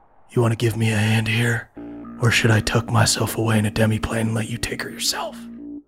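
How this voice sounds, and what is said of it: Low-voiced villain character. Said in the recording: “in a low voice”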